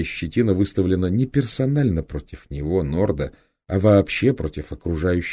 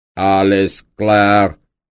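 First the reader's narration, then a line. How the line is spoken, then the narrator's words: Booming trumpet-like voice. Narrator (Russian): прогудел трубный голос с капитанского мостика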